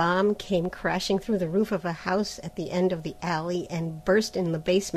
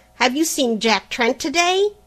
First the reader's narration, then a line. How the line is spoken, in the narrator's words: the latter cried